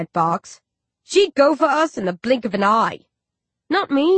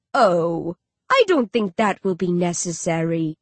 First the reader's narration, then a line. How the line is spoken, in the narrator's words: Dandan purrs